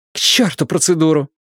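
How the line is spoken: Snapping retort. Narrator (Russian): огрызнулась Рэйчел

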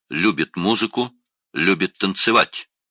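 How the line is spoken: Plain. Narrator (Russian): спросил Винс

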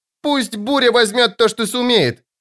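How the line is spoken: Shout. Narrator (Russian): закричала она

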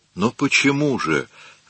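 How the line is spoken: Desperate pleading. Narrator (Russian): взмолился Микеланджело в отчаянии

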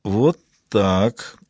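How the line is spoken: Mutter. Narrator (Russian): пробормотала Маура

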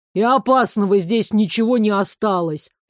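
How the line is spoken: Grumbling. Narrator (Russian): пробурчал он

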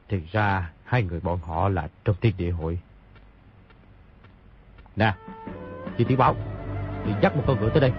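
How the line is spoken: Muttering. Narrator (Vietnamese): bèn lẩm bẩm

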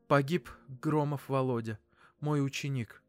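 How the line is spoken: Weak, dejected voice. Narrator (Russian): Бессильно, она проговорила упавшим голосом

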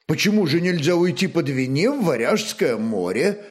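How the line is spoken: Plain. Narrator (Russian): спросил Скальд

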